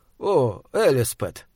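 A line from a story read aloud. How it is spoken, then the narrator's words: Quiet. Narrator (Russian): сказал он тихо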